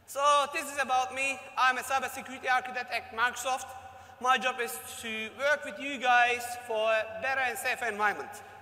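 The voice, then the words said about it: Unusual mixed non-native English accent. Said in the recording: “Probably you noticed a very weird accent ... Turkish parents, born in Germany. I was living in Australia for 15 years. Last 1.5 year I'm in Dubai, so this is what's coming out.”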